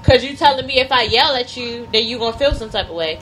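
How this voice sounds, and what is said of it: Loud, raised voice. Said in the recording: “my voice. Yelling. Just because my voice is a little bit louder than what you would like for it to be. ... Right, you yelling.”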